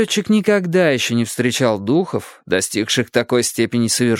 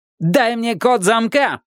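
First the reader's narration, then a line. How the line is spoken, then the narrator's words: Shout. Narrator (Russian): крикнул он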